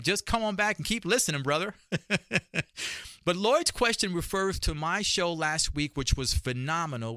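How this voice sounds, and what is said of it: New York accent. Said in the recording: “boy, do we really love your New York accent”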